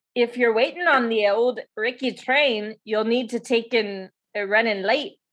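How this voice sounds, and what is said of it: Attempted Scottish accent drifting Irish. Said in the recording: “I used to be able to do a Scottish accent ... my Scottish accent always just ends up Irish”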